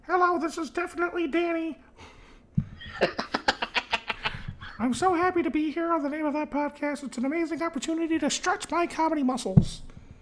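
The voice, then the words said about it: Silly sock puppet character voice. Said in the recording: “why do you sound like a sock puppet? ... she sounded like Jordan Peterson”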